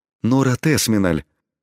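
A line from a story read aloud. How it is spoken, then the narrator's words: Stunned, emotional exhalation. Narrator (Russian): пораженно выдохнул дворецкий, дав волю своим чувствам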